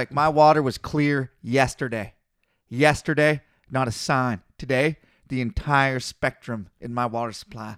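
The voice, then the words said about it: Mimicked accent with drawn-out vowels. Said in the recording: “the accent was verbatim ... drawn out vowels”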